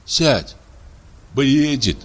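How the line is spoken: Sighing. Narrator (Russian): вздохнул Щур

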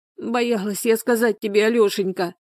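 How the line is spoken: Sobbing, shaking. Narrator (Russian): рыдала, вздрагивая всем телом

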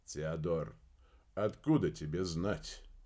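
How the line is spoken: Sighing. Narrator (Russian): вздохнул Дердагентур

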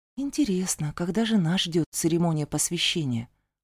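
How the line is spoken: Muttered. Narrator (Russian): пробормотала я

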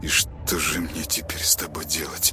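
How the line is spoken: Through gritted teeth. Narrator (Russian): Процедив сквозь зубы, Тёма

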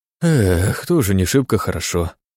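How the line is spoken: Sighing. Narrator (Russian): вздохнул

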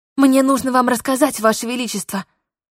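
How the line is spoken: Rapid anxious chatter. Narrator (Russian): затараторила я, опасаясь возвращения дурацких мыслей в голову

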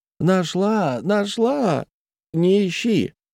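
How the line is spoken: Shouting. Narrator (Russian): закричала

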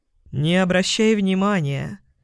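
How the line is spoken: Sly drawl. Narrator (Russian): ехидно протянул Яспер

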